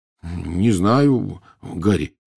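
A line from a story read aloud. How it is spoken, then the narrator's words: Uncertain reply. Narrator (Russian): неуверенно ответил Рон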